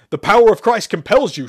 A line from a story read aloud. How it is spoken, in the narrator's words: Sherman roared as Shepard mumbled the phrase